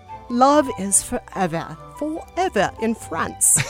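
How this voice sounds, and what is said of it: Vague put-on foreign accent. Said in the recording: “That is my accent that's kind of not any accent. I don't know what that was.”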